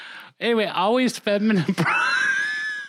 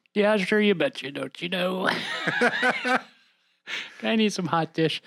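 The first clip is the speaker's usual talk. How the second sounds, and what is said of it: Exaggerated Minnesota accent. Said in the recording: “it has to be my accent ... It has to be that Minnesota thing ... I'm not even trying to do it, but it just happens.”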